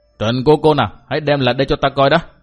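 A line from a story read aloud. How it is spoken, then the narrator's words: Barked question. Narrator (Vietnamese): Cát Đạt Tổ lại quát hỏi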